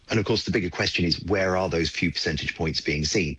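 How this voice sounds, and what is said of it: British accent. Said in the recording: “you can probably tell by my accent I'm British”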